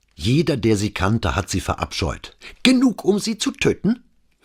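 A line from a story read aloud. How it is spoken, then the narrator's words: Eager question. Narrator (German): fragte Scarpa begierig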